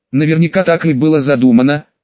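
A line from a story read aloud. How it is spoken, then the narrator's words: Smirking snort. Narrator (Russian): хмыкнула Этридиэль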